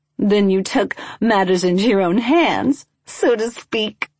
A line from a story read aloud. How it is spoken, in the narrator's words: Lavanda said, giggling